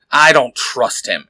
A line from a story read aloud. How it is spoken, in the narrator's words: Eric says, growling